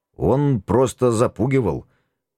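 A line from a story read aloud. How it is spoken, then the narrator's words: Uncertain. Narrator (Russian): неуверенно начал я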